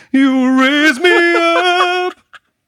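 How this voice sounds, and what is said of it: Imitates another person's singing voice. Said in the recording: “That was a good impression.”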